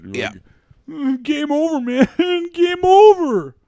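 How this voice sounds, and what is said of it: Imitates another person's voice. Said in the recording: “Good Bill Paxton impression”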